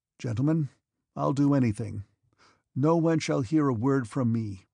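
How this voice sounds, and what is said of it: Imploring, pleading voice. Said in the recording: “in an imploring voice.”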